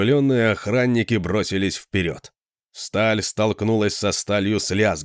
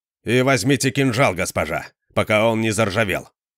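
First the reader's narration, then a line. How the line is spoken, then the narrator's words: Sharp, curt. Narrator (Russian): резко бросил он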